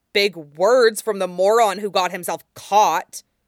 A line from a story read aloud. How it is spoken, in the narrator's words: Mean snarled right back